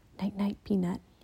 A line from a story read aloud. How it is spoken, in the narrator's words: he whispered